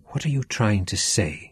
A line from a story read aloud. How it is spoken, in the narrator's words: whispered